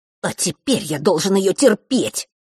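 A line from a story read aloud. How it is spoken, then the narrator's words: Annoyed, through gritted teeth. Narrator (Russian): с досадой процедил Норт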